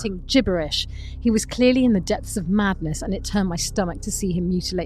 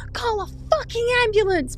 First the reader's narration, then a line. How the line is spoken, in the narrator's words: my wife screamed